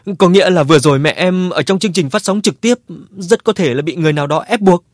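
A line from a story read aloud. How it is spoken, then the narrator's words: Sobbing question. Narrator (Vietnamese): Cô khóc nức nở hỏi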